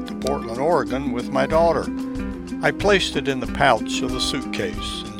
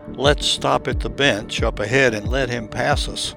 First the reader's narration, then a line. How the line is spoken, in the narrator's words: I whispered to Sally